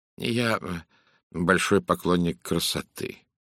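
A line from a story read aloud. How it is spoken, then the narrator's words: Even level voice. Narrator (Russian): ровным голосом ответил Пуаро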